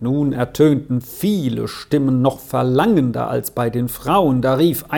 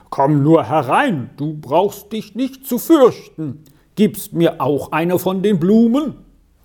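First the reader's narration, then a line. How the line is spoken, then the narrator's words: Someone calling out. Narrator (German): rief einer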